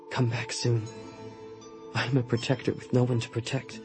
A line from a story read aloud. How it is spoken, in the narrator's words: with reluctance, and I whispered